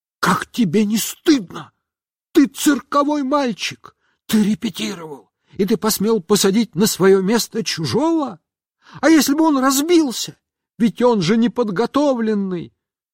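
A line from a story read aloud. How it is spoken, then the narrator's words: Shouted whisper. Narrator (Russian): Но она закричала шепотом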